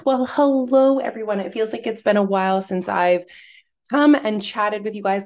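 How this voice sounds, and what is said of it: Scratchy voice. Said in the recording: “how scratchy my voice was”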